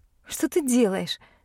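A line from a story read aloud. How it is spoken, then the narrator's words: Laughing. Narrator (Russian): засмеялась я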